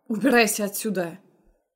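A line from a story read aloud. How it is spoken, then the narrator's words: Barking. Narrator (Russian): гаркнул на Дерека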